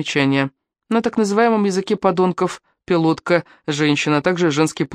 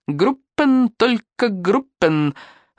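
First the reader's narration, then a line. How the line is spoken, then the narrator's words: Loud laughter. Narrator (Russian): расхохотался шатен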